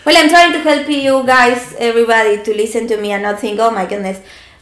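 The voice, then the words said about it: Fast Argentinian Spanish accent. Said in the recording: “I'm working very hard right now to sound softer in my accent... I talk fast too, so talking fast with this accent... I'm Argentinian, I talk very fast”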